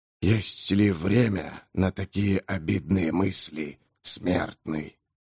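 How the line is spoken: Soft, slightly hoarse. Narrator (Russian): Голос звучал мягко, хотя в нем присутствовал и хрип

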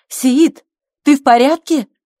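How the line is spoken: Shout. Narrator (Russian): Мервет, хлопотавшая на кухне, крикнула

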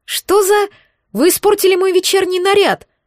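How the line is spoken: Startled cry. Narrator (Russian): вскрикнула Этейн

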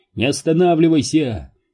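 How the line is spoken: Shouting. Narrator (Russian): крикнул Джеффри

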